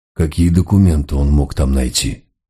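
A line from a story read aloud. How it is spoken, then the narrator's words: Sighing question. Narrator (Russian): вздохнув, спросил Мегре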